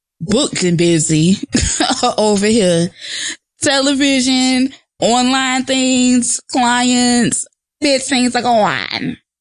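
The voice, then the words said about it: Poor fake Trinidadian Jamaican accent. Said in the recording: “That's my fake Trini, Jamaican, whatever accent. It was horrible”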